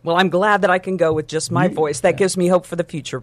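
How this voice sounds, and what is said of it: Great radio voice. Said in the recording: “what a great radio voice you have”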